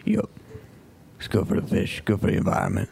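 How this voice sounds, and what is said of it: Put-on Cajun accent character voice. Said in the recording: “Cajun accent ... I'm really more doing the voice than I am the accent ... I do this voice every time I do the accent, so I think it's pretty much a character by now”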